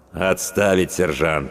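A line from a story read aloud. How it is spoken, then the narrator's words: Cold. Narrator (Russian): холодно произнес ротный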